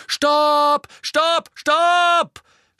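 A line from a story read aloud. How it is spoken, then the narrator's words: Scream. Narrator (German): schrie Angelina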